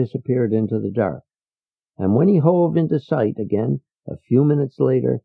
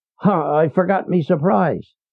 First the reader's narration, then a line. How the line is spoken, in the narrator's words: Leo shouted